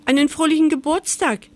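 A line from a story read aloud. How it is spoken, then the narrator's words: Squeaked, high-pitched. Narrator (German): piepste sie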